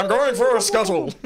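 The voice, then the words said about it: Weird cartoon character voice. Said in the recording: “the Zoidberg thing... grace us with the noise... I can just do weird voice impressions”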